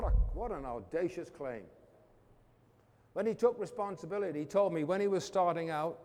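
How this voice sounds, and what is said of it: Usual voice. Nothing is said of it.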